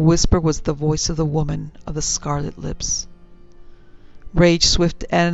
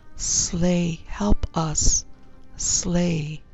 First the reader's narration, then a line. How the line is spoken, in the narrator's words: he heard them whisper